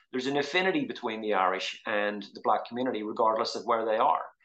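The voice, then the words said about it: Northern Irish accent. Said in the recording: “when they heard my accent ... I came from Northern Ireland”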